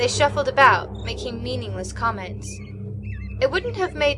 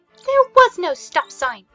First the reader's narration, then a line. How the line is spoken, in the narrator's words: Susan shouted irritatedly from the back seat